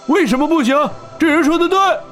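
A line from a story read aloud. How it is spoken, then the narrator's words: Small man shouting excitedly. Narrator (Chinese): 他矮小的身子从人群中高高跃起，挥着双拳喊道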